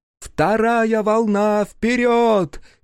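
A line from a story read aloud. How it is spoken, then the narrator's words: Shout. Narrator (Russian): крикнула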